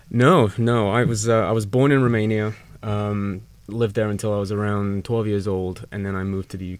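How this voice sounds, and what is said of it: English-sounding accent. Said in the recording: “I couldn't help but notice your accent. ... are you originally from England?”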